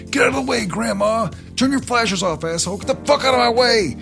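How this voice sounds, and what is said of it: Yelling angrily. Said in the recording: “and he's yelling”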